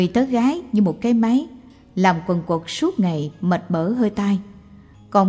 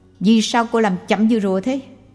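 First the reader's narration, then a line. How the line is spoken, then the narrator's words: Harsh snap. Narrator (Vietnamese): Người kia nạt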